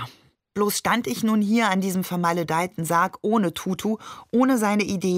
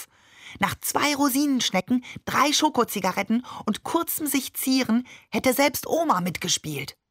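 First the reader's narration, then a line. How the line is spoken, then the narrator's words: Whisper inside head. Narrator (German): flüsterte Tutu in meinem Kopf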